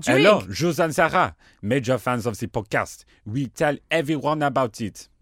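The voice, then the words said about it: Put-on French accent. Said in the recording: “I shall read in my French accent.”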